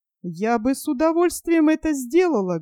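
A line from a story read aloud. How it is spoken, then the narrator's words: Muffled and sad. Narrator (Russian): глухо и печально сказала Сильви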